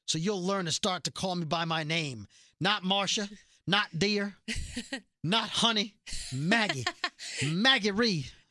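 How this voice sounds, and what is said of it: Poor Southern US accent as Maggie. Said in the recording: “I'm trying to do her accent ... I just butchered the accent of a British actress ... Impersonating a southerner.”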